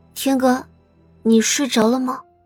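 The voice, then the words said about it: Soft, quiet calling voice. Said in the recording (Chinese): “小声的唤了两声”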